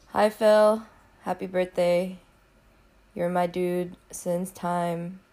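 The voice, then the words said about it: Weird-sounding sick voice. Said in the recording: “my voice sounds kind of weird. I'm sick”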